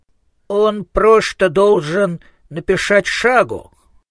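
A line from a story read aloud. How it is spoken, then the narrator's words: Determined lisping. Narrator (Russian): решительно прошепелявил Коэн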